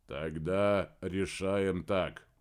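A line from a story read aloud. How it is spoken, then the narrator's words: Drawl. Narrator (Russian): протянул Помпилио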